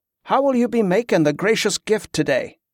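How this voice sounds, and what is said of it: Perfunctory voice, thick fantasy accent. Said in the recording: “The voice was perfunctory, the free speak thick with a Terrandon accent.”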